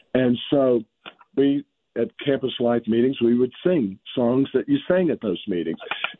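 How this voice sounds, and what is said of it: Slightly hoarse, laryngitic voice. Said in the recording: “forgive my voice, I've got a little laryngitis developing from a cold”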